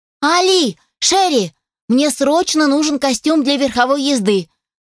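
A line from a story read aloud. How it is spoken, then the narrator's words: Loud shout. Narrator (Russian): заорала Сара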